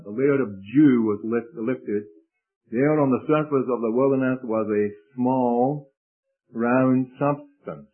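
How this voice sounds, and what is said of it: Scottish accent. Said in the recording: “do you say dew? I say dew, you know, that's my Scottish accent.”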